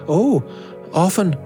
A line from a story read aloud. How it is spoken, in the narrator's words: cried the girl